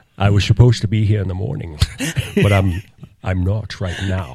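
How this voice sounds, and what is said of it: Imitates another person's voice. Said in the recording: “I do an impression of them ... I was going to do an impression”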